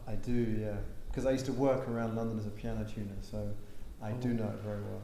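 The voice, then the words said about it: English London accent. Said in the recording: “that is not a Bronx accent there ... that is an English accent. So I'm from London, England.”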